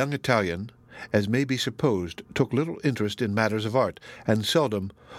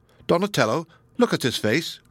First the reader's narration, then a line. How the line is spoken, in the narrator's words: cried Kenyon